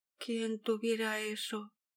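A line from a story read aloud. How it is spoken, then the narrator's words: Unrestrained murmur. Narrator (Spanish): murmuró Josefina, sin poder contenerse más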